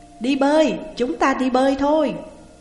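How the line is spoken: Excited group shouting. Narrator (Vietnamese): Sau khi tan ca, mười mấy người trong văn phòng hào hứng hò hét

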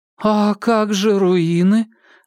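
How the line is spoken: Disappointed drawl. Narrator (Russian): разочарованно протянула Кира

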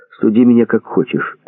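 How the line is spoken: Plain. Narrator (Russian): ответил Вадим

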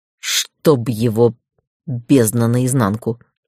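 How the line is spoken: Cursing. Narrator (Russian): выругался Дейтар

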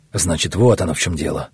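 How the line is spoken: Muttering. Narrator (Russian): бормотал Кархан

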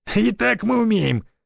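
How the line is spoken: Hoarse laughter. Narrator (Russian): хрипло засмеялся Жиганов

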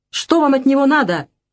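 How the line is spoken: Shouting. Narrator (Russian): выкрикнула она

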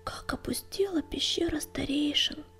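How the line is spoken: Whispered. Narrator (Russian): прошептал он

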